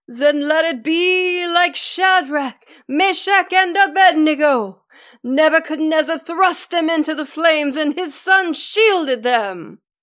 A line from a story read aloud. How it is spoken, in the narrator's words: Cunningham shouted back